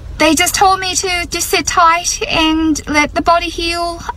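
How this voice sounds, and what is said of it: Irish accent. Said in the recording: “she's got a full-on Irish accent”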